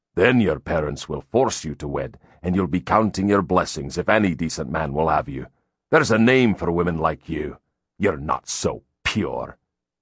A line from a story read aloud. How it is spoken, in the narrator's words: he spat